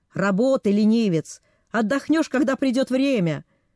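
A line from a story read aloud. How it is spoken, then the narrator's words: Shouting. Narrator (Russian): Цзун кричал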